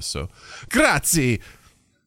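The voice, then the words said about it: Put-on Italian accent. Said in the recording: “Yet again, the Italian accent.”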